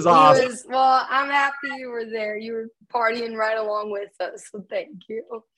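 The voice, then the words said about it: Tired, worn-out voice. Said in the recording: “my voice is so bad right now ... drove all night, so I'm sounding a little tired”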